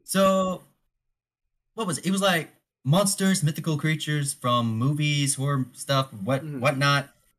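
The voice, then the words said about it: Alabama Southern accent. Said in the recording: “I'm from Alabama ... I thought I recognized your accent.”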